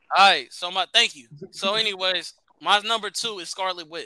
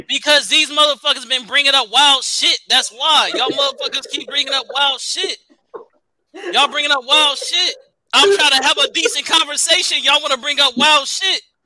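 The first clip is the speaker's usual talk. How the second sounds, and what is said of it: Yelling. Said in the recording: “Why are you yelling? Stop yelling.”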